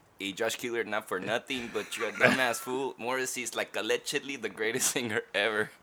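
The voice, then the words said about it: Imitates another person's accented voice. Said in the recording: “do this in the voice? ... Make a racist voice? ... It's George's impression. I'm doing George's voice. ... I like how he pronounced the DG. ... Yeah, it becomes a CH.”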